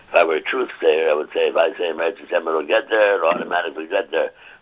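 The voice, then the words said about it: Weak voice, not fully recovered. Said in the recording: “My voice is a little, getting stronger every day, a little bit. Still not back to where it's supposed to be.”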